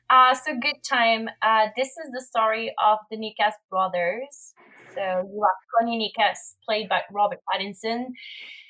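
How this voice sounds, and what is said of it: French-accented English. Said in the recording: “Sorry for my English, as I'm French. Sometimes I have a little weird accent.”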